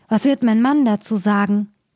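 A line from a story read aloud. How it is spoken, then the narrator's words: Woman calling out. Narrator (German): rief sie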